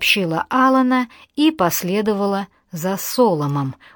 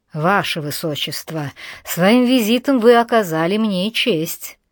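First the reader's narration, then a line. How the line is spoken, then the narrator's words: Purred. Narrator (Russian): Джордж промурлыкал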